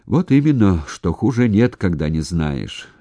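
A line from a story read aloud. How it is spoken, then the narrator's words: Driver sighing. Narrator (Russian): шофер вздохнул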